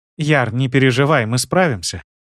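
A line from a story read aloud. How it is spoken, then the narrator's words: Confident, calm, smiling. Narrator (Russian): улыбнулась моя жена уверенно и спокойно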